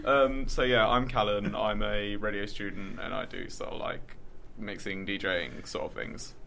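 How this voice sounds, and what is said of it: Rough, unwell-sounding voice. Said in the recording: “my voice is terrible. It's not normally this bad.”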